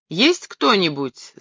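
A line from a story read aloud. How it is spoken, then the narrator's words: Shouting. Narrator (Russian): закричал я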